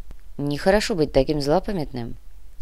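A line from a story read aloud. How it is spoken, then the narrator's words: Quiet remark. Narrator (Russian): негромко заметил Кортес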